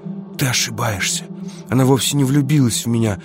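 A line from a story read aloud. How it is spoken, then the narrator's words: Passionate whisper. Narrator (Russian): страстно зашептал он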